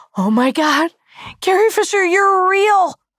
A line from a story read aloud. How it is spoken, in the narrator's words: I screamed